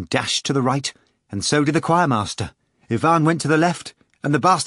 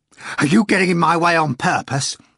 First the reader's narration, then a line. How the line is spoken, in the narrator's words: Ivan cried furiously